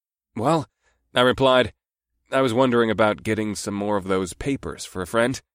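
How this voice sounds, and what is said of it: Usual voice. Nothing is said of it.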